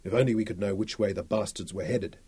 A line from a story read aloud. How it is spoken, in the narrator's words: murmured